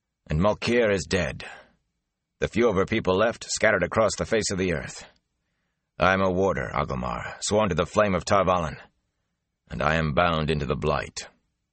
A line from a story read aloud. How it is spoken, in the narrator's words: Lan said harshly